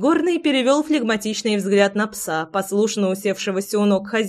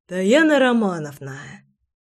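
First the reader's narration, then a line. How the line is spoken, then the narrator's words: Sighing. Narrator (Russian): вздохнул Горыныч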